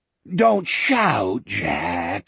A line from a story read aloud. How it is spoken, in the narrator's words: he moaned